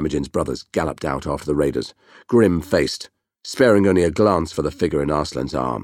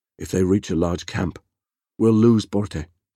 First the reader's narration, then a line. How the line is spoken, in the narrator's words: Kassar said gloomily